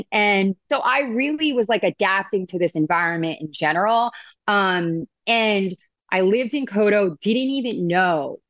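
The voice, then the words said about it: Long Island accent. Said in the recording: “I am from Long Island. I don't say anything right. Like I obviously have this accent.”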